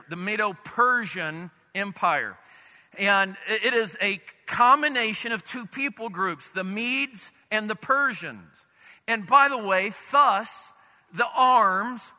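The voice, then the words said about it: Southern US accent. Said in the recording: “I'm from the south. I screw it up all the time ... if you don't quite get my accent there”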